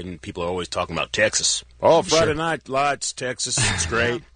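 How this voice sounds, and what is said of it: Put-on Texas accent, quite good. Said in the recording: “I like your Texas accent. ... It's very good.”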